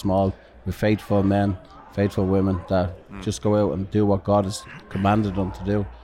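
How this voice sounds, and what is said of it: Irish accent. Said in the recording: “I love your accent ... ask an Irishman a question”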